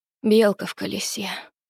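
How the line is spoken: Mumble. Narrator (Russian): пробормотала

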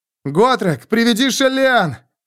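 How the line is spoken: Shout. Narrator (Russian): крикнул он

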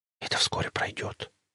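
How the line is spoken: Whisper. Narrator (Russian): шепнула она

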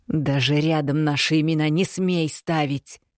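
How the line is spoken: Near growl. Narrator (Russian): практически прорычала женщина

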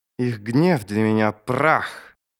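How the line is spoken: Mother speaking through clenched teeth. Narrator (Russian): мать Ярви выдавила через сжатые зубы

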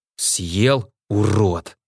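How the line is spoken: Hoarse rasp, mercenary. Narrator (Russian): прохрипел наемник

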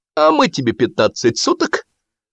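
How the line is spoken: Cheerful promise. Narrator (Russian): радостно пообещал чубастый

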